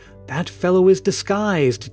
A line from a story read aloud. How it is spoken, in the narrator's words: declared Marion in a whisper to the girls nearest her